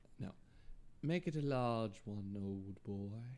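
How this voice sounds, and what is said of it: Posh put-on English accent. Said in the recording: “you went from, like, a very, like, Cockney accent to, like... ... you just get really posh.”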